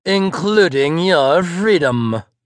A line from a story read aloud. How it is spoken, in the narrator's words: the doctor sneered